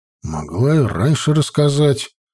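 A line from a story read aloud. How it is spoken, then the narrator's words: Grumbling. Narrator (Russian): проворчал Константин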